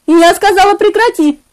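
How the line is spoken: Woman shouting. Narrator (Russian): кричала она

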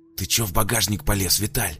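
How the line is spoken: Hissing. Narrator (Russian): прошипел на напарника Михаил

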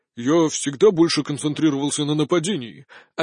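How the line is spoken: Offended mumbling. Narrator (Russian): обиженно забубнил Влад

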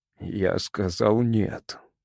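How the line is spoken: Groaning yet firm. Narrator (Russian): простонал шериф, хотя голос его был тверд

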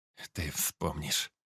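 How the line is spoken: Old man's quiet whisper. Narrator (Russian): прошептал дед, не узнавая свой собственный тихий голос

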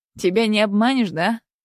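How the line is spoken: Scoffing. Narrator (Russian): хмыкнул Денис

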